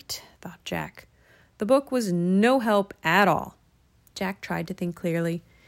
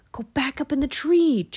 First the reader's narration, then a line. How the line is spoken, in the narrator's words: Jack whispered